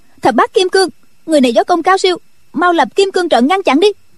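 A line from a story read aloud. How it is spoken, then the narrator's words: Shout. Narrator (Vietnamese): Triệu Mẫn quát lên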